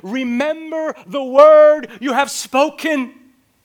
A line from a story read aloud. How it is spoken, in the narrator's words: Faith cries out to God